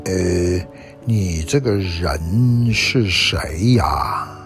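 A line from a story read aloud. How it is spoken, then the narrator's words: Slow, sleepy. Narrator (Chinese): 毛毛虫……慢慢吞吞的，好像要睡着似的，对爱丽丝说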